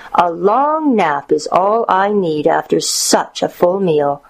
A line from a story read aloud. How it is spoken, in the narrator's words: said the wolf with a satisfied sigh